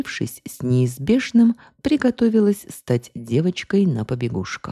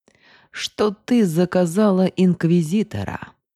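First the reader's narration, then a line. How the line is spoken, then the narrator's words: Close purring. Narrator (Russian): мурлыкнул, склонившись к моему лицу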